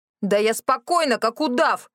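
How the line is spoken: Loud yelling. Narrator (Russian): в голос заорала я

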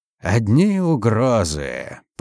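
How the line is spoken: Creaky voice. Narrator (Russian): проскрипел маршал Дрейга

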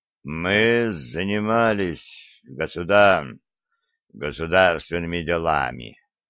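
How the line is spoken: Muttered. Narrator (Russian): пробормотал Олег

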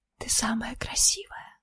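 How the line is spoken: Intimate close whisper. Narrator (Russian): прошептал ей в губы

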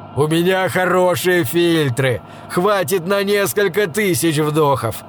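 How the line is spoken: Laughing. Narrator (Russian): рассмеялся Дрингенбум

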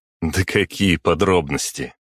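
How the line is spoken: Short laugh. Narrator (Russian): хохотнул я

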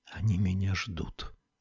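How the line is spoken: Barely audible. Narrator (Russian): произнесла она чуть слышно

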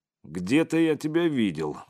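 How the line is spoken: Unfriendly grumble. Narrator (Russian): проворчал он, недружелюбно

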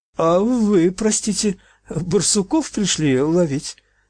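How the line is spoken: Timid breaking voice. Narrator (Russian): спросил он, набравшись храбрости, срывающимся ровким голосом

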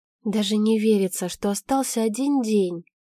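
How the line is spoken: Muffled sighing whisper. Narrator (Russian): с тяжелым вздохом прошептала девушка, утыкаясь в шею Жени

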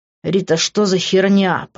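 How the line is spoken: Hissed. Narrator (Russian): прошипел я

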